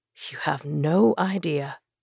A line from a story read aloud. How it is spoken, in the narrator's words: Aaron muttered